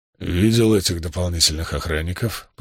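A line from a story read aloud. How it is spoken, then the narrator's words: Grumbling. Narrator (Russian): проворчал германец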